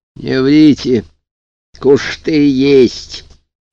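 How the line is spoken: Insistent, slightly lisping. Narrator (Russian): надоедливо настаивал библиотечный полицейский чуточку шепелявым голосом

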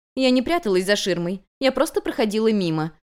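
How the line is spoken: Calm reply. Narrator (Russian): спокойно ответила

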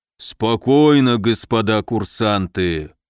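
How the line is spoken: Deep booming rumble. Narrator (Russian): прогудел медведь

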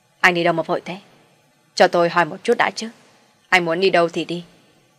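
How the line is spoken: Shouting. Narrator (Vietnamese): Vinh quát hắn ta

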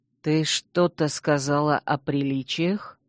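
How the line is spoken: Quiet, insinuating. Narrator (Russian): Герцог произнес это тихо и вкрадчиво

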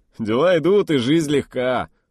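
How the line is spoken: Chuckle. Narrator (Russian): хохотнул Старс

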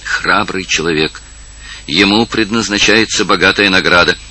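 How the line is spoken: Enthusiastic exclamation, young woman. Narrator (Russian): воскликнула с энтузиазмом молодая королева

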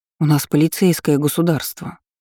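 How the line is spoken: Uncertain reminder. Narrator (Russian): неуверенно напомнила Лу

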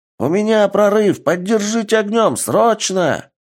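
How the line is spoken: Shout. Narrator (Russian): прокричал один из пехотинцев

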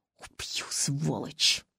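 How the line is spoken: Hissing. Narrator (Russian): зашипела я

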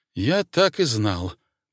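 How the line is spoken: Mutter. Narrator (Russian): пробормотал Старлей

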